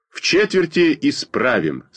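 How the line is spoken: Firm. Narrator (Russian): сказал я твердым голосом

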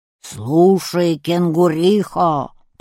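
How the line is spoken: Bear's roar. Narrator (Russian): проревел медведь

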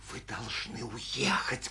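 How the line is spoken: Whisper. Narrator (Russian): продолжала Анна Сергеевна шепотом

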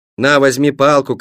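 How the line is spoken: Shouted. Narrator (Russian): крикнул я

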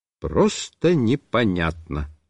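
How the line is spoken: Plain. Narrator (Russian): сказал я

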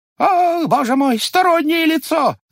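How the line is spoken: Frightened shout. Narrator (Russian): закричал в испуге дьяк

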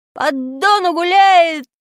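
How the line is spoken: Loud singing. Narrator (Russian): мы пели так громко

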